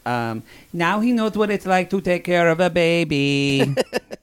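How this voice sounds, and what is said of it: Deliberately bad put-on Colombian accent. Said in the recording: “We're going to do a terrible accent. ... It's very Sofia Vergara you're doing. ... she is Colombian. ... one of my best friends is from Bogota, so I just do his accent.”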